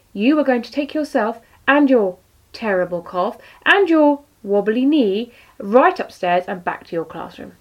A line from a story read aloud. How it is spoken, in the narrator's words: Redbridge firmly